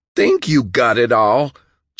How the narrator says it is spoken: John cried

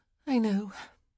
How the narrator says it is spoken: Penelope said with a sigh

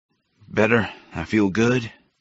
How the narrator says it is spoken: he grunted into my mouth

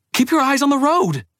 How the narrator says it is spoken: she shouted

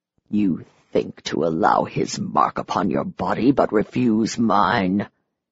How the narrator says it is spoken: He hissed

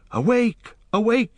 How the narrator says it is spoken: he cried

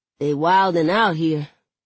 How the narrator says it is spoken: Devante says with a chuckle

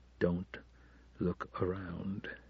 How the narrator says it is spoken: he begged under his breath

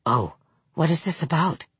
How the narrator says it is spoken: Tabitha Hutter said under her breath

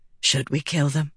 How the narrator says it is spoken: she muttered

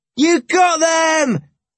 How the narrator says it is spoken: we roared delightedly

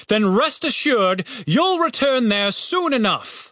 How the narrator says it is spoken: bellowed the captain

